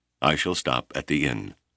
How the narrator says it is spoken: he said stiffly

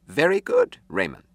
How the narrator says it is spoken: Yun said

